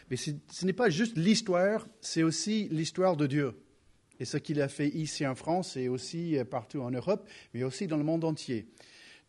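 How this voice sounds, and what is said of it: Slight American accent in French. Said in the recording (French): “je ne suis pas né en France, n'est-ce pas? J'ai un petit accent ... je commence à parler un peu plus avec un accent américain”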